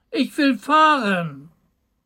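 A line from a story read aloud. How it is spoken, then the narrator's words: Small one shouting. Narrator (German): rief der kleine Hebelmann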